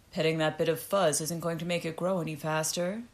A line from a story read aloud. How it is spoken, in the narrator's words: Rutger said with a loud laugh